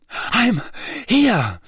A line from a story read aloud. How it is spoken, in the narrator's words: Harry panted